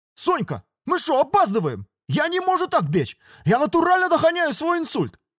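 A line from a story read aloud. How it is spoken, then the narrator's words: Yelling while running faster. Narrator (Russian): орал пацан, ускоряясь все сильнее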